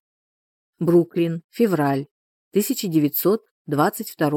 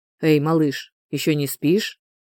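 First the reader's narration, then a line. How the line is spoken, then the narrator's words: Father's deep low voice. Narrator (Russian): скажет отец глубоким, низким голосом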